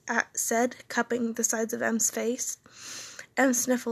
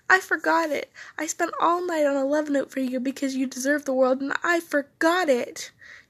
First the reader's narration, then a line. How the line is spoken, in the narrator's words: cried out